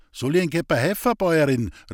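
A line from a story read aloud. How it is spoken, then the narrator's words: Calling downward. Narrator (German): rief er hinunter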